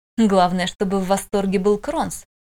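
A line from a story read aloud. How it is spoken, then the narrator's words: Snorting. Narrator (Russian): хмыкнул Мичи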